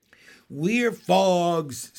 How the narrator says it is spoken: screamed the froglets

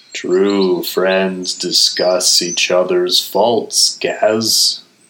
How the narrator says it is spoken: Igneous sighed

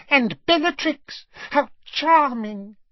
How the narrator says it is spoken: he said in a squeaky voice

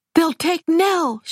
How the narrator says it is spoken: cried

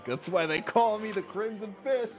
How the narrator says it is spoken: He said very loudly

